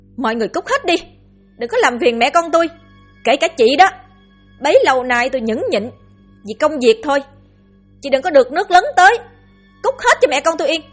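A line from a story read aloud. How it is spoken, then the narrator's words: Angry, echoing from inside. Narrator (Vietnamese): tiếng cô vọng ra với vẻ đầy tức giận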